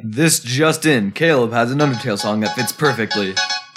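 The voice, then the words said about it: Mock newscaster voice. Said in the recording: “Using your best newscaster voice”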